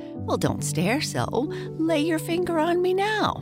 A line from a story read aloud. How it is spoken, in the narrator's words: a voice which laughed and said